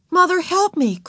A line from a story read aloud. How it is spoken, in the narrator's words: cried Beezus